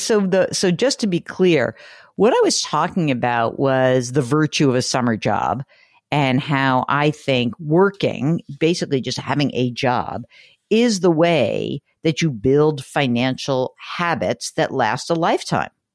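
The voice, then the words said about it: New York accent. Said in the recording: “I love that New York accent ... I have a New York accent. I seem to get more New York-y”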